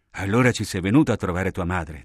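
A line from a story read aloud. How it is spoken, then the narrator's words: Plain. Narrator (Italian): disse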